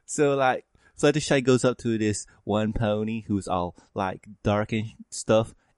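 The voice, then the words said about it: Speaking with a sudden twang. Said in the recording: “why I'm having a sudden twang.”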